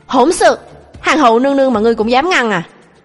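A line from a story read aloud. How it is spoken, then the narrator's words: Loud angry shout. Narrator (Vietnamese): Lục Ly đã lớn tiếng quát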